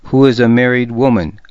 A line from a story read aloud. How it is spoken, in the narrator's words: I said harshly